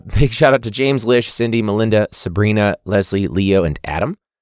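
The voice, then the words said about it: Strained, fading voice. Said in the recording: “I lose my voice from a day of teaching”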